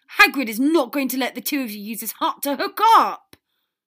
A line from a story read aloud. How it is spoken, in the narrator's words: Potter yelled, loud enough for everyone in earshot to turn around in shock